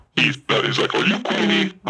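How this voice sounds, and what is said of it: Imitates another person's voice. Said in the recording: “That was a great Bobby impression.”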